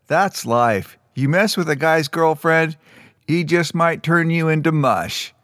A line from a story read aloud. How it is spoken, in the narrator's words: One of the boys in the crowd laughed and said